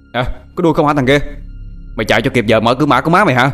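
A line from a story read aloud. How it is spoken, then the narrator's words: Furious shouting. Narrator (Vietnamese): Nó điên tiết gào lên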